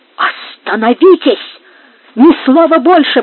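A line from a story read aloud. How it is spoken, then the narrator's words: Voice trembling with rage. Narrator (Russian): воскликнула Бланка дрожащим от бешенства голосом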